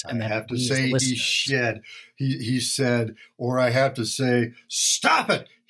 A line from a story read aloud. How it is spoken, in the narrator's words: he roared uproariously, humorously